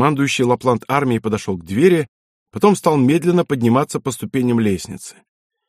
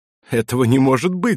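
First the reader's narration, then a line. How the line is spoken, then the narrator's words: Laughing. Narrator (Russian): засмеялся Дитом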